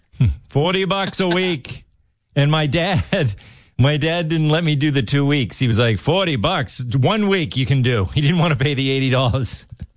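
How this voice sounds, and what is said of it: Massachusetts accent slipping through. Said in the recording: “you just got a Massachusetts accent there. Yeah. Dollars.”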